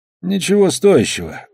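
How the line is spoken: Sighing. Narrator (Russian): вздохнул Амос

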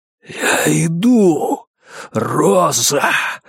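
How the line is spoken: Breathless exhale. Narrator (Russian): выдохнул он

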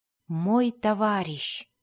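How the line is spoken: Whisper. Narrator (Russian): прошептал Дзирт

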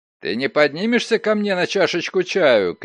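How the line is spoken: Shout. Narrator (Russian): крикнул он

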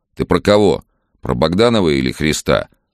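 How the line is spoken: Stern father. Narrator (Russian): строго спросил отец

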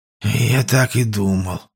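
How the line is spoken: Displeased grumble. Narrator (Russian): недовольно проворчал мужчина

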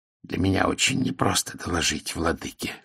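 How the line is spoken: Hoarse. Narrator (Russian): хрипло сказал Таэль

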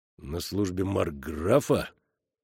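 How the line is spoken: Thoughtful repetition. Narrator (Russian): задумчиво повторил командир солдат, усач

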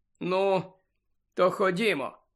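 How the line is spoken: Sad, smiling voice. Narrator (Ukrainian): сумно посміхнувся Сіріус

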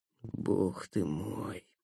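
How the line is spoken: Whispered. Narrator (Russian): прошептал Никита

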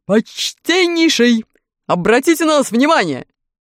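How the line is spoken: Shouted. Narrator (Russian): крикнул дровосек

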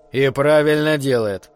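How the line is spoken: Gloomy. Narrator (Russian): мрачно ответил Ворон

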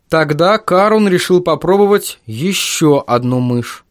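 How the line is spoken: Plain. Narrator (Russian): сказал Марк

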